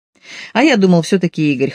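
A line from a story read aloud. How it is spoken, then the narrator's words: Chuckling. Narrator (Russian): хохотнул он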